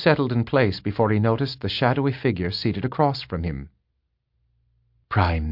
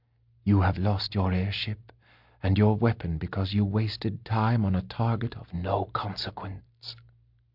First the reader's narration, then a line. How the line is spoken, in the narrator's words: she said quietly